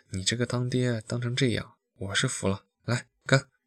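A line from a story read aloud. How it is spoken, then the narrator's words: Laughing, sighing. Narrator (Chinese): 朋友笑得更大声了 叹道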